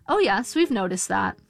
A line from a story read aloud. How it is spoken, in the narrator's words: the nurse said